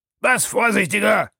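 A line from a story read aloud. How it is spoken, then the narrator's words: Outraged shout. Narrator (German): rief der Oberst Proctor, dem dies zufällig vernommene Wort außer sich brachte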